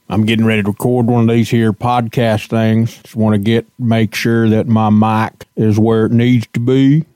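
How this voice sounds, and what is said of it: Silly put-on funny voice. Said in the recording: “why I got to use a funny voice ... speaking in a silly voice”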